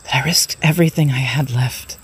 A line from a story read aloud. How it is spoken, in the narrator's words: she whispered to her son tearfully